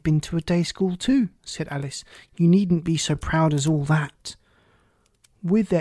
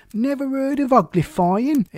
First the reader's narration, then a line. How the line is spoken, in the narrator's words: It exclaimed